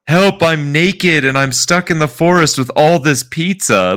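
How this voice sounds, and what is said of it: Imitated girl's voice. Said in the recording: “girl voice”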